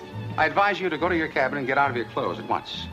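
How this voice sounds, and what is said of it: Affected high-society accent. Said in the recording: “affects this kind of high society accent”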